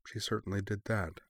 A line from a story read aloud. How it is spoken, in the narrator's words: Maki murmured